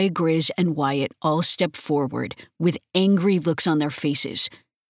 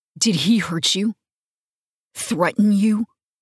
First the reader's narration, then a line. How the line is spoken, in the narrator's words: I ask, my voice coming out hard